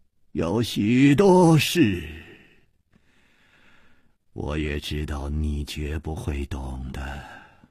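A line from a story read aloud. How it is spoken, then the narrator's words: Calm sigh. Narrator (Chinese): 李玉涵也不生气，竟又叹息了一声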